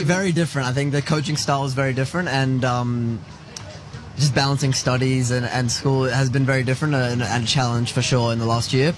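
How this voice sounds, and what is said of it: Strong non-American accent. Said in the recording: “that accent's staying strong, mate ... if I start getting American accent”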